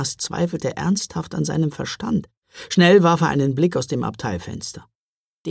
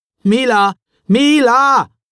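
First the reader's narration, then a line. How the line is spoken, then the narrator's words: Calling out again. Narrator (German): rief er noch einmal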